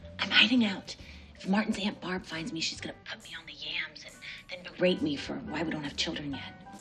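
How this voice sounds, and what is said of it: Whispering. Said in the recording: “Why are we whispering?... why am I whispering?... You just started whispering.”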